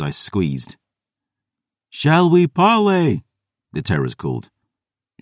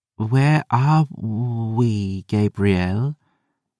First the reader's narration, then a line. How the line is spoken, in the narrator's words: Ash whispered, bewildered